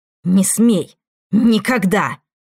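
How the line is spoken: Hiss. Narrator (Russian): прошипела

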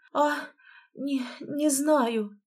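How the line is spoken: Barely forced out. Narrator (Russian): еле выдавила она из себя

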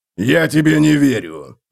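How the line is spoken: Growl. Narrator (Russian): прорычал Готрек

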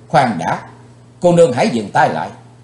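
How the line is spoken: Shouting. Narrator (Vietnamese): Chàng quát lên

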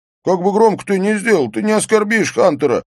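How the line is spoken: Shouted. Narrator (Russian): прокричал Эйстейн

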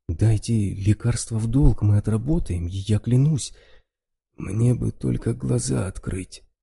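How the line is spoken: Hoarse injured man. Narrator (Russian): хрипло произнес мужчина с поврежденным лицом

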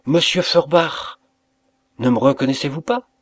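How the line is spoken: Striking voice. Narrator (French): d'une voix saisissante

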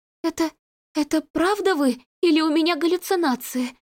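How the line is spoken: Frightened girl babbling. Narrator (Russian): пролепетала испуганная девушка

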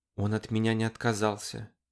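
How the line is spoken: Whispering. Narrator (Russian): прошептала она

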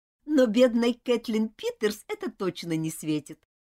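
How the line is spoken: Laughing. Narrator (Russian): рассмеялась Элизабет

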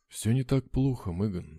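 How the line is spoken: Calm. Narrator (Russian): спокойно сказал Абрахам

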